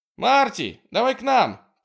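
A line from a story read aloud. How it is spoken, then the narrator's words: Shouting. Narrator (Russian): крикнула она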